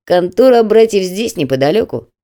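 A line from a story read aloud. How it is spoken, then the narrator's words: Grumbled. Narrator (Russian): проворчал Крепыш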